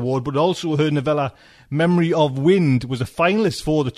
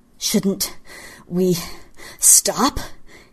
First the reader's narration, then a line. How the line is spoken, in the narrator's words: he panted